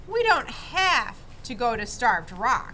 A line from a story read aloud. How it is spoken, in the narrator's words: he said